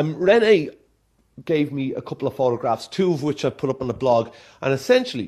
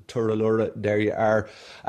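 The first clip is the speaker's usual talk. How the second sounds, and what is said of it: Put-on Irish accent. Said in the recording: “me best Irish accent”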